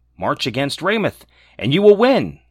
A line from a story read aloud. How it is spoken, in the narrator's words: said